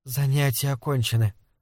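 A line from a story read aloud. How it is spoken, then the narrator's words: Tired. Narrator (Russian): устало произнесла мисс Гейс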